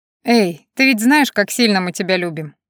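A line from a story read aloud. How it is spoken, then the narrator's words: Laughing. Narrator (Russian): засмеялся Джер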